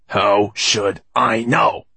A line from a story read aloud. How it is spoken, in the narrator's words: replied Finoglio irritably